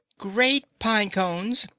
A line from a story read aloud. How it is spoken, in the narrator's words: exclaimed Mrs